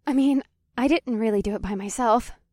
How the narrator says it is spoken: Winnie smiled nervously

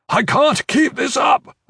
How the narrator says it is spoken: Iron Fist shouted, his voice strained

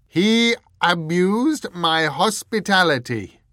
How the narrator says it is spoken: boomed the Earl

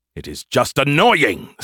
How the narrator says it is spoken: Skippy snapped

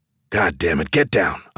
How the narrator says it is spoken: I hissed

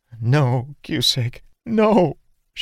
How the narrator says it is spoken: she sobbed

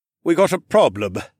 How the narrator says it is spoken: the chief snapped

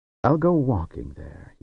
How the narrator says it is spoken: he said

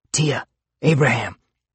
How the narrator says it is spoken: I whispered

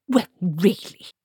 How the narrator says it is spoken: snapped Granny

